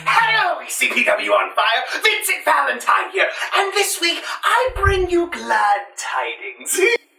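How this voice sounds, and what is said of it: Mark Hamill Joker impression. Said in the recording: “doing an impression, not of Vincent Valentine, but of the Joker ... he's basically just the Joker here ... Mark Hamill”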